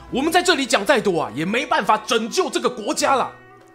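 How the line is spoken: Shouting to a crowd. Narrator (Chinese): 一位名叫山缪亚当斯的意见领袖对群众高喊

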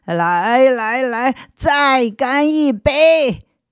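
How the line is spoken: Drunken shouting. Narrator (Chinese): 有个人影摇摇晃晃的向这儿走来，边走还边嚷着

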